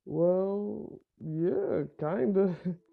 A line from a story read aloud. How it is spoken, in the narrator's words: Ben said nervously